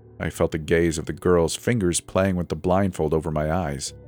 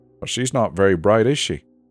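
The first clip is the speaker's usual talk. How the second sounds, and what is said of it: Male voice with British accent. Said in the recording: “This time a guy with a British accent.”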